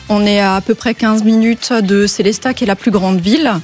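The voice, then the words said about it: Speaks with a regional accent. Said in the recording (French): “C'est un accent que j'adore, mais que je n'arrive pas à faire.”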